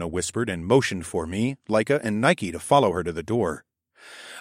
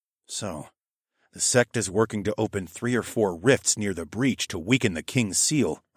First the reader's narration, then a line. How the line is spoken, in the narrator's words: I murmured